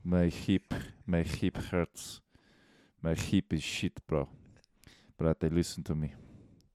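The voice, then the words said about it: Put-on Serbian accent. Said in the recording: “Do your best Serbian accent right now.”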